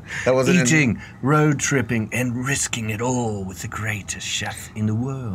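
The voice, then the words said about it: Put-on English accent. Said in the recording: “you're supposed to say it with an English accent”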